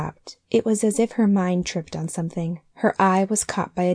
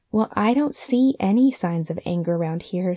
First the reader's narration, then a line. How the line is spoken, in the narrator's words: said Mrs